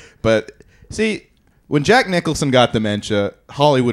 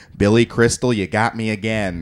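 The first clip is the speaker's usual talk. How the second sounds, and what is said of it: Imitates another person's voice. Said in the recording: “Jack Nicholson ... that impression”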